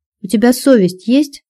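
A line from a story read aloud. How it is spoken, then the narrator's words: Stern question. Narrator (Russian): строго спросил я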